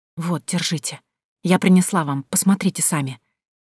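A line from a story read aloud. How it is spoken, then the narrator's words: Whispered. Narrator (Russian): шепотом прокомментировала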